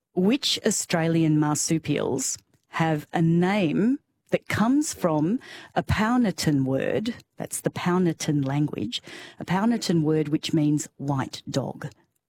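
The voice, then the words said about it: Slow, deliberate speech. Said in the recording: “I'll say it slowly.”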